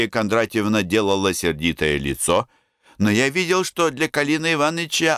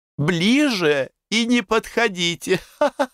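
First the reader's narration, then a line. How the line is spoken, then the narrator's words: Laughing. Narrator (Russian): смеялась Мария Кондратьевна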